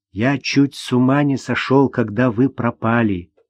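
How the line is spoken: Quiet. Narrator (Russian): тихо сказал

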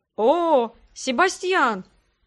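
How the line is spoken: Joyful exclamation. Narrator (Russian): обрадованно воскликнул идущий за радугой

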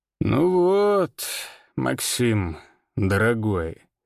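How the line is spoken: Soft drawl. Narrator (Russian): протянул он мягко

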